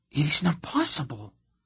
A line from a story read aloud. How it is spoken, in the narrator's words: she gasped in absolute horror